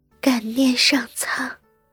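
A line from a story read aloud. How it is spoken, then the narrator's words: Soft and gentle. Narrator (Chinese): 林和柔声道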